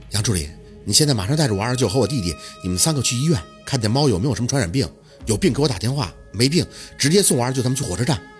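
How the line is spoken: Tense, forced calm, quick. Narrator (Chinese): 咬牙，宝四强迫自己冷静，迅速的交代

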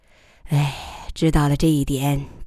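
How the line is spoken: Sighing. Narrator (Chinese): 他叹口气

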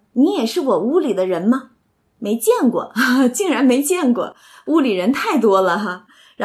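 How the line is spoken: Laughing. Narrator (Chinese): 宝玉一看就笑说

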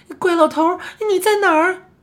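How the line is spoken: Frightened shouting. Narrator (Chinese): 我很害怕，大叫的说道

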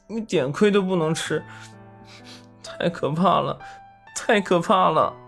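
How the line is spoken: Sobbing. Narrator (Chinese): 抽泣着说道

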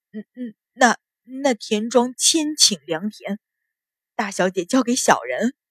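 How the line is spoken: Startled stammering. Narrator (Chinese): 鲁大脚吃了一惊，结结巴巴道

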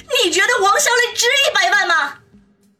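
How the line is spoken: Angry voice. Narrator (Chinese): 黄雅琴 怒声的说道

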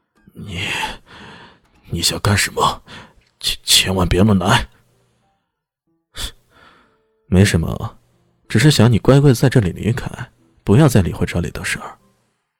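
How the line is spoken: Trembling voice. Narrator (Chinese): 他只能颤声的说道

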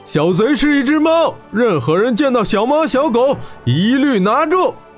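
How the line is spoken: Furious roar. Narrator (Chinese): 血眼沙陀瞪着血红双眼，吼道

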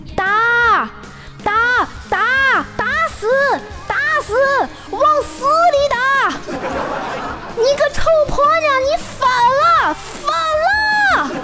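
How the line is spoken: Man screaming heartrendingly. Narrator (Chinese): 有个男人撕心裂肺的大喊

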